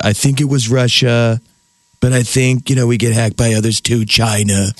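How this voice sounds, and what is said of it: Impression of Donald Trump. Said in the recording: “I feel like sometimes if I close my eyes, he's here. ... Your impersonation is spot on.”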